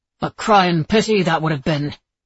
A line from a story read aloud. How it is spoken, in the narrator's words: Chase grumbled